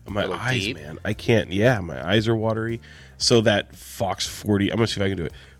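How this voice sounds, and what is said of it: Voice sounding a little weird. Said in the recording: “My voice is sounding a little weird ... Just battling some allergies”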